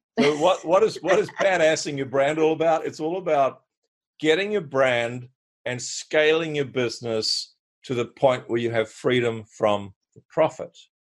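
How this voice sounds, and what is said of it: Australian accent. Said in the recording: “forgive my Australian accent when I say badass.”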